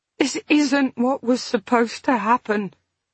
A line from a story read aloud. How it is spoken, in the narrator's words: she said brokenly